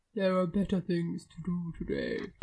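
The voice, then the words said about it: Imitates a fictional character's voice. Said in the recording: “I'll do an impression. ... That's the face of Beau.”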